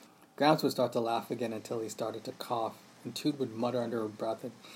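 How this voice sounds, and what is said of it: Usual voice. Nothing is said of it.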